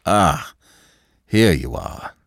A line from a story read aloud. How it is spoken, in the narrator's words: he said, with a sigh of relief